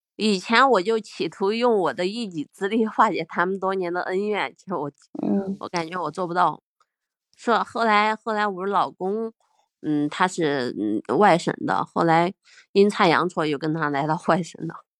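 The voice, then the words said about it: Sichuan-tinged Mandarin accent. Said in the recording (Chinese): “听口音也有点像湖南人 ... 四川人啊，也都有点像，都有点那个味道”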